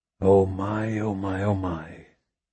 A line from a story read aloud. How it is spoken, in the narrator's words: Brunetti whispered to himself